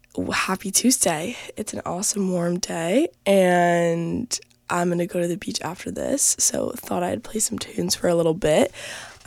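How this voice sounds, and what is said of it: Voice sounds a little sick. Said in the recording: “I'm a little sick, so you might hear it in my voice”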